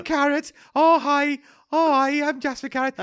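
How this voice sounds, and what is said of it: Attempted Birmingham accent, unconvincing. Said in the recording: “what was his accent? ... Brummy. ... That's not Brummy.”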